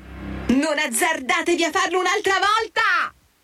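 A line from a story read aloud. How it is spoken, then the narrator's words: Shout. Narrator (Italian): E gridò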